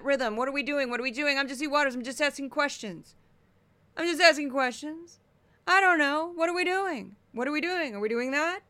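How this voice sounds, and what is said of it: Panicky man's voice, rising line endings. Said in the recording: “It's harder for me to do men's voices, but that panic, that rhythm. ... He kind of has a Seinfeld, kind of a rhythm to it, but not really. He goes up at the end of the lines”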